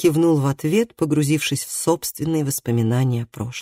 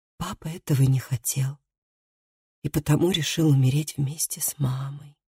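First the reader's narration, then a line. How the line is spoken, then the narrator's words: Quiet. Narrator (Russian): тихо сказала Лив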